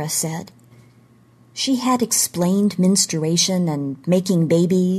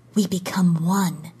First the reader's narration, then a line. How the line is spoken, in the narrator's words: she whispered